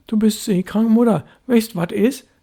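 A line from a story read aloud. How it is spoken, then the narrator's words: Called after her. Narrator (German): rief Störtebecker hinter ihr her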